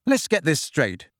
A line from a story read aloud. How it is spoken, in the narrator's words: said Harry angrily